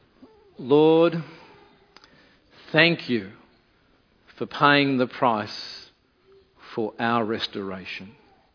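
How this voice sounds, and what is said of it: Slow, deliberate spoken prayer. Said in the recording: “say it slowly”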